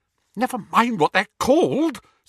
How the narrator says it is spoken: said Hermione a little hysterically

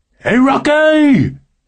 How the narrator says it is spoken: shouted a guy from the stands

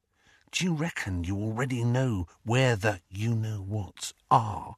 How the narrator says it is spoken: he dropped his voice to a whisper

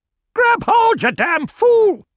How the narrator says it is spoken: cried Grant

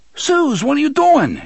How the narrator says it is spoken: Eddie yelled

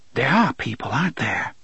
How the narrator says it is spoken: she whispered

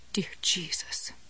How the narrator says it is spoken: Jessie muttered

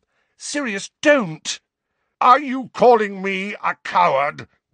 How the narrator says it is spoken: roared Sirius

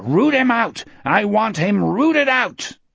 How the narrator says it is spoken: Sunlight Gardner lifted his bullhorn and roared

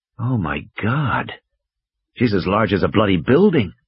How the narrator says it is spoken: Malcolm whispered

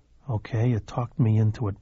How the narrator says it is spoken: Billy mumbled

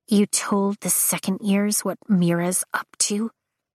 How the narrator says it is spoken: Imogen whispers with a sharp bite of accusation

